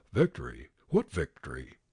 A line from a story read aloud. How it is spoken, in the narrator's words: the veterans muttered under their breath